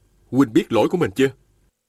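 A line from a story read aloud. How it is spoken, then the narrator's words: Stern question. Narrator (Vietnamese): Viên Thừa Chí nghiêm giọng hỏi hắn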